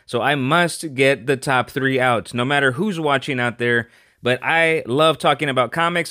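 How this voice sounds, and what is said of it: Sick, off-sounding voice. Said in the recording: “my voice is very off. I've been feeling a little under the weather. I'm highly medicated right now”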